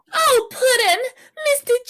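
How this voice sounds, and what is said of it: Cartoonish Harley Quinn character voice. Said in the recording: “can you do the Harley accent, though?”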